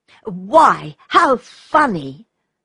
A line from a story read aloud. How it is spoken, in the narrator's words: exclaimed Redcap